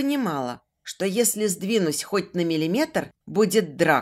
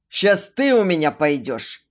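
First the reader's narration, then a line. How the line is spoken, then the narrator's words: Loud bark. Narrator (Russian): Рявкнул Дэн так, что стоящие за соседними столиками люди вздрогнули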